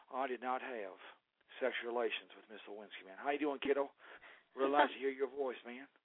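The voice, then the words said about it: Bad Bill Clinton impression, Midwestern accent. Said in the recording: “a horrible Bill Clinton with a Midwestern accent”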